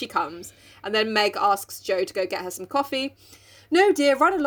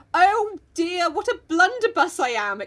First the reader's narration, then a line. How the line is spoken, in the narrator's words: exclaimed Joe